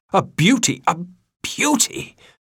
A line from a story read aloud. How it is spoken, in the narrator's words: Aunt Sponge cried out